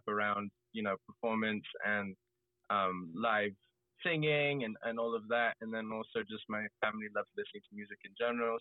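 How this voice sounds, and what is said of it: English accent. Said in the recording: “I'm half English, as you can tell, ... Accent.”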